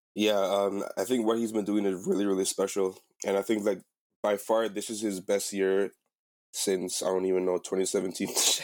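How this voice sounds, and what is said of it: Sick-sounding voice. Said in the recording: “my voice just sounds so sick right now”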